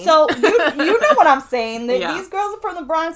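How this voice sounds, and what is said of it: New York Queens accent. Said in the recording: “that's my accent”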